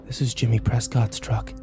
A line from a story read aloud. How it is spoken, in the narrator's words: I breathed